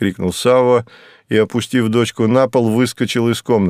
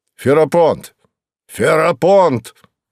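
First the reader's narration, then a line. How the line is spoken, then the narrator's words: Shouted. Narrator (Russian): крикнул он камергеру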